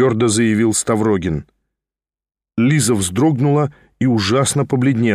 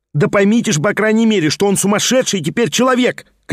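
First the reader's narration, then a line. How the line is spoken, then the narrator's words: Shouting at full strength. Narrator (Russian): кричал изо всей силы Петр Степанович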